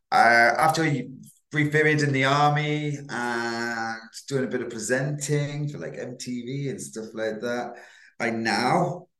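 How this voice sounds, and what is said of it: Manchester English accent. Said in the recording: “Definitely got a Manchester accent.”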